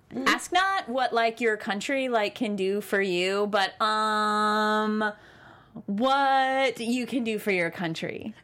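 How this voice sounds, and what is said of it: Impression of Becca. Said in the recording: “That's a Becca quoting JFK. ... For my Becca impresh. ... Impression. Absolutely. Great impression.”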